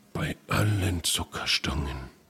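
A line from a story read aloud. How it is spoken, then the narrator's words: Whispering. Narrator (German): flüsterte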